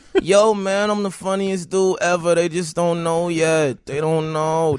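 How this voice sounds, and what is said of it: Imitates another person's voice. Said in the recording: “This is my Michael Che impression. ... And it's a good one. ... That's my impression. ... That sounds just like him.”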